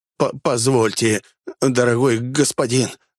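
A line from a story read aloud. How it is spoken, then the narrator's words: Flustered babbling. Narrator (Russian): залепетал он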